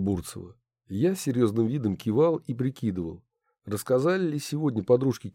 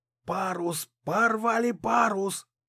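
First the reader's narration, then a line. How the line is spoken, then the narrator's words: Shouting. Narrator (Russian): кричал Артурчик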